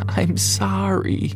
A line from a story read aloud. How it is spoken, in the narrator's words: she sobbed